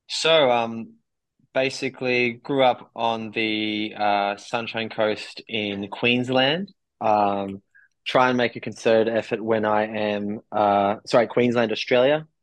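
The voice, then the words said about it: Slight accent. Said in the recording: “we're spotting a slight accent there”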